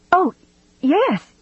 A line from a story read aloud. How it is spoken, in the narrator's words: she cried